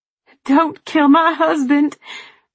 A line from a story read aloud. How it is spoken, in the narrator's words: Anne sobbed